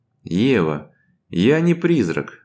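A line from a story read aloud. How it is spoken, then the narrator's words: Sigh. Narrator (Russian): вздохнул Владимир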